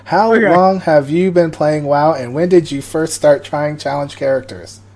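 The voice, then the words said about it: Robot voice. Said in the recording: “That's my robot voice.”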